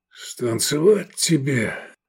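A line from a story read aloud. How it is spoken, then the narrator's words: Hoarse wheeze. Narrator (Russian): просипел Лобанов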